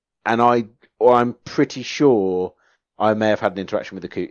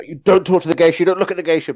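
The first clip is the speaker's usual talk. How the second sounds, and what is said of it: Put-on Japanese accent, shouting. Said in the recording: “In English, but Japanese accent.”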